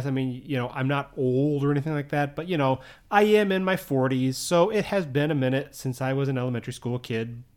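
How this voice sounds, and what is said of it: American accent. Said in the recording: “If you can't tell by my accent, obviously, I'm from the U.S.”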